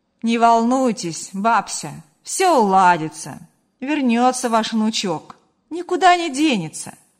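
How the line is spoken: Reassuring, slightly joking tone. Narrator (Russian): Прощаясь, попытался поддержать старушку и немного шутливым тоном добавил

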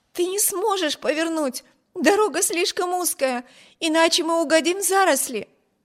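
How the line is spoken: Fearful exclamation. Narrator (Russian): воскликнула Эми, уверенная, что при этой попытке карета непременно опрокинется

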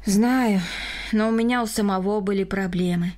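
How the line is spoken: Sighing. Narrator (Russian): вздохнул Рома

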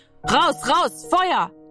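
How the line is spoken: Screamed. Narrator (German): schrie

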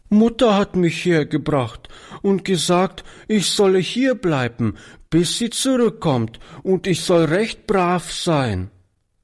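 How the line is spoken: Little girl sobbing. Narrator (German): erklärte die Kleine schluchzend

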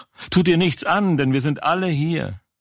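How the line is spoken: Loud call. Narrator (German): Paulus aber rief laut und sprach

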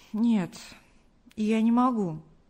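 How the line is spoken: Sigh. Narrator (Russian): вздохнул Артур

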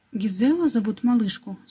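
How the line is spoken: Plain. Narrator (Russian): спросил кто-то

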